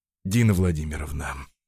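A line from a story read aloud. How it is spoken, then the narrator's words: Gloomy sigh. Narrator (Russian): Рубцов мрачно вздохнул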